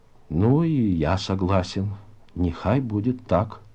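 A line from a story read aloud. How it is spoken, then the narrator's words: Sighing, husky voice. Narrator (Russian): Он глубоко вздохнул и хрипловатым голосом произнес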